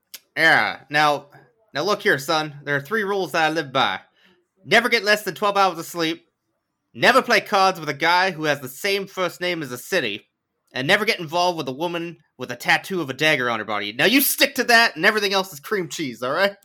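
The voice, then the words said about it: Put-on sports coach voice. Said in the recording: “What's that accent? ... What was the accent? ... That's coach accent.”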